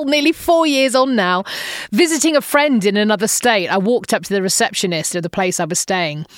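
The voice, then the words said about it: English accent. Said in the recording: “I'm English. My accent's from England.”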